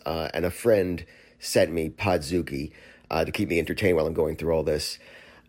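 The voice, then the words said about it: Sick-sounding voice. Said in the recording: “I have COVID right now... That's why my voice sounds like this”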